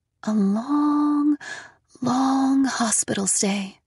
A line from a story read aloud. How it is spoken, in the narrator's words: she said in a voice just above a whisper